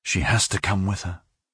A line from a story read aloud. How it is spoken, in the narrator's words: Aureliano would say to himself in a low voice